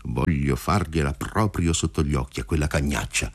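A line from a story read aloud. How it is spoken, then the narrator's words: Muttering. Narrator (Italian): borbottava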